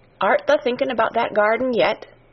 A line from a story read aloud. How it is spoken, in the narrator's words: she said